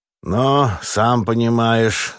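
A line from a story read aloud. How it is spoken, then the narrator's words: Sullen strained words. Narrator (Russian): набычась выдавил Астахов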